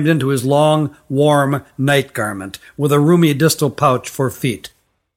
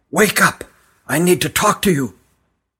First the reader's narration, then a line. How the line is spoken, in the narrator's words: he whispered huskily